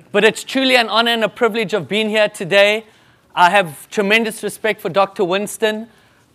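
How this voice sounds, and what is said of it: Speaks with a foreign accent. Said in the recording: “you've got such a wonderful accent. But I always say to them, you guys have the accent.”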